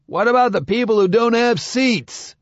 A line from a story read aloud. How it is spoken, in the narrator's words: cried one of the men